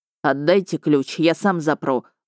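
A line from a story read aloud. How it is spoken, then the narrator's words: Displeased grumbling. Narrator (Russian): буркнул недовольный полицейский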